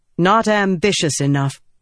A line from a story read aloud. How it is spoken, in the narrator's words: Yasna said more firmly